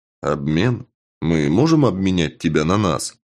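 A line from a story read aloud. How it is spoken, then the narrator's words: Uncertain answer. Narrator (Russian): Пленник ответил неуверенно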